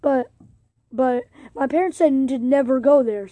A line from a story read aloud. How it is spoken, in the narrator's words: stammered Porky